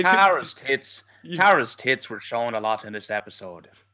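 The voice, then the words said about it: Stereotypical put-on Irish accent. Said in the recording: “That is an amazing stereotypical Irish accent. Irish.”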